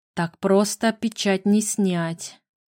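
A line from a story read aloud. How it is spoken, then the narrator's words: Thoughtful drawl. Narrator (Russian): задумчиво протянул повелитель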